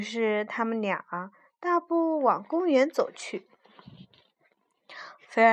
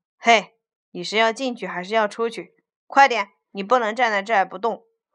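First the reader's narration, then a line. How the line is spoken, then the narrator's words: Cold voice. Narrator (Chinese): 大铁门冷冷地说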